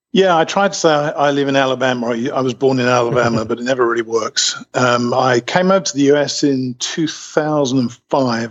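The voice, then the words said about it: British accent. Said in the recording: “Obviously, you have a British accent.”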